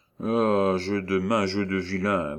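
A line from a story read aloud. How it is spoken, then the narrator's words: Annoyed grumble. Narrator (French): grommela-t-il d'un ton de sérieuse contrariété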